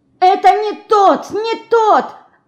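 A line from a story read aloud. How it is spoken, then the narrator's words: Desperate shouting. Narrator (Russian): отчаянно кричала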